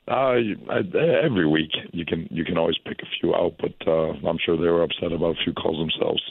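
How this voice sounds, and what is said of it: Hoarse voice. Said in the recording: “Excuse my voice. I was my voice a little hoarse from yesterday.”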